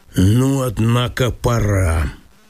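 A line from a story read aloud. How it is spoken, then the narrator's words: Businesslike, almost bored tone. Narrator (Russian): промолвил он каким-то деловым, почти скучливым тоном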